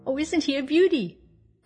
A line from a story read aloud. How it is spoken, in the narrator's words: cried Mabel